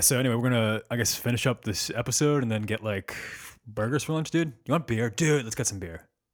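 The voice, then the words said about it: Exaggerated lazy bro-dude voice. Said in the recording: “do our best bro voices ... Whenever I do my bro voice, I do my brother ... the wheels fell off a little bit at the end uh, with the dude. It felt like a parody, but at the beginning it found it ... sounded really uh, broy ... it could be just like a little more like lazy ... a little more like vocal fry”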